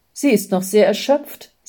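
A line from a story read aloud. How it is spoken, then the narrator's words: Plain. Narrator (German): sagte die Schwester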